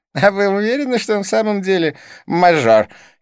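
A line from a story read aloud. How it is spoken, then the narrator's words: Twin's snide question. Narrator (Russian): ехидно поинтересовался близнец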